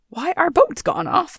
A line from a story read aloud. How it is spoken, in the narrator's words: they replied in an indignant tone